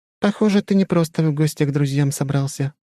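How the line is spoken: Sighing. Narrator (Russian): вздохнула она

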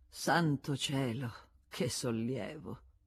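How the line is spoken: Sighing. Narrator (Italian): Con un sospiro aveva aggiunto

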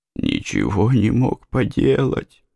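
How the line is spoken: Groaning. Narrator (Russian): простонал Поттер

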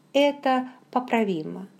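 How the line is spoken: Calm. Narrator (Russian): спокойно сказал он

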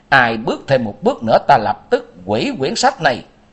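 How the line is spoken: Loud shout. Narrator (Vietnamese): lớn tiếng quát

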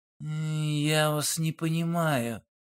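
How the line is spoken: Drawling. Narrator (Russian): протянул Олег

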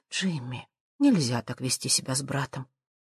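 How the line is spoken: Mother's quiet reproach. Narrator (Russian): А мать тихо говорит с укором

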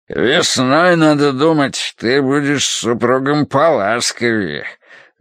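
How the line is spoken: Deep bass voice. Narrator (Russian): пробасил он

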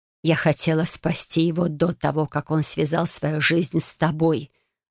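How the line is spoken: Woman's growl. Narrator (Russian): рыкнула она

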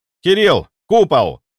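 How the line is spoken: Shouting again. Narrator (Russian): снова прокричал я

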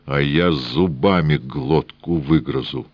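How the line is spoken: Furious, through gritted teeth. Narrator (Russian): Яростно князь процедил

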